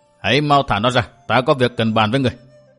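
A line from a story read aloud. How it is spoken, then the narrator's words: Calm, cheerful, smiling. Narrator (Vietnamese): Lạc Tử Khư không hề tỏ ra giận dữ, điềm nhiên tươi cười nói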